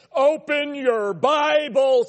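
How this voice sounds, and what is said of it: Booming preacher voice. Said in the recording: “the tone of voice from the preacher ... Your preacher voice.”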